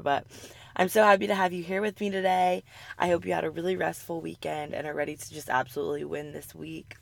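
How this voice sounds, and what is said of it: Scratchy, raspy sick voice. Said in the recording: “my scratchy voice ... My throat's a little bit sore this week ... my kind of raspy, sick voice”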